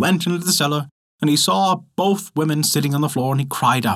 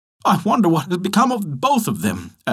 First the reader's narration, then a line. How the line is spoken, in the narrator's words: at length exclaimed the man